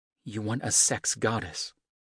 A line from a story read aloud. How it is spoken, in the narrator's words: she said softly